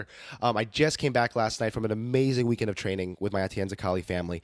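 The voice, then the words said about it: Hoarse voice. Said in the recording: “tell from my voice, it's a little hoarse. It's a little under the weather.”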